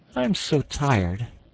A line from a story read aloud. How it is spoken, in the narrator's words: he gave a great sigh and said